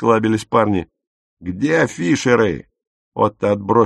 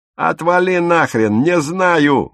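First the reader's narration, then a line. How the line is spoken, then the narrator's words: Howling young man. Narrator (Russian): взвыл парень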